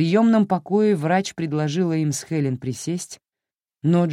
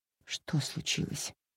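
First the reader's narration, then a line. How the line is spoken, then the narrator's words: Whispered question. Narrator (Russian): шепотом спросила она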